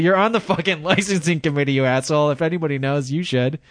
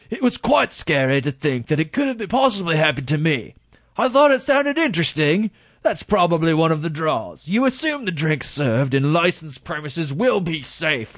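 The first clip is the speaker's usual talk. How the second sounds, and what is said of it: Put-on English accent. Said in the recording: “I'm shifting into an English accent midstream, if you haven't noticed. ... It's a good job, though.”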